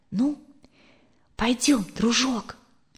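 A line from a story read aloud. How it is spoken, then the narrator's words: Quiet. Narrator (Russian): Екатерина тихо сказала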